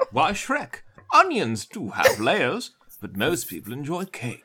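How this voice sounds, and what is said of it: Imitates another person's voice, sounds British. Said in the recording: “Is he Stephen Fry now? ... That's my Eddie Murphy. ... I'm trying for the Eddie Murphy.”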